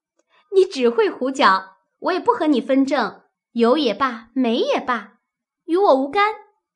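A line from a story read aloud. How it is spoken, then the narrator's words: Sheepish laugh. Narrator (Chinese): 湘云没了话答对，因笑道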